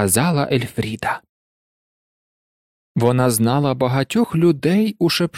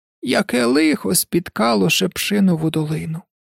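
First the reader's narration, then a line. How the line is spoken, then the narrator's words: Sighing. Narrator (Ukrainian): зітхнула Ельфріда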